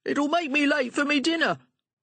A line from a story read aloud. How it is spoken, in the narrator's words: he shouted